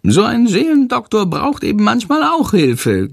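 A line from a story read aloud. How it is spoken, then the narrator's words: Giggling. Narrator (German): kichert Chandor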